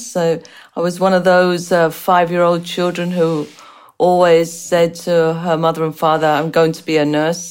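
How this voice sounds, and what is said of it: Unusual English-born accent. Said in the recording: “as you can tell from the strange accent, I was born and raised in England with Irish parents ... spent many years ... in the United States”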